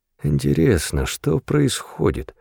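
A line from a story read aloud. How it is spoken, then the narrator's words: Mutter. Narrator (Russian): пробормотал Билл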